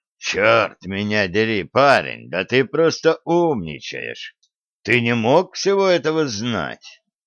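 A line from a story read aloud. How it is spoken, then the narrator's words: Hoarse. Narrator (Russian): Мастерс хрипло сказал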